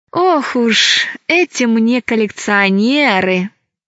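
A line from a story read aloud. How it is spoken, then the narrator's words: Sighing. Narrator (Russian): вздохнула Алиса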